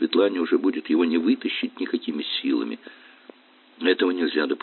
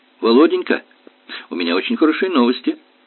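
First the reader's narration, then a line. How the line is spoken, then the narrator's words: Joyful, female speaker. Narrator (Russian): радостно заговорила она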